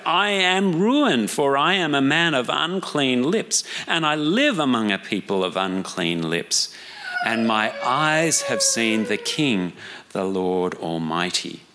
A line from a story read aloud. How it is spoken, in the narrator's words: I cried